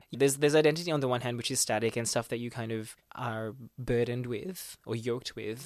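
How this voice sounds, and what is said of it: Non-rhotic, assimilated English accent. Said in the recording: “this accent is the result of that process of trying to assimilate here... It sounded more American than this... drop your R. Like it's a non-rotic English like speaking country”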